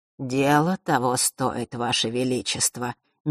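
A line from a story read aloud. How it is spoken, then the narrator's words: Soft gentle speech. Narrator (Russian): мягко произнес часодей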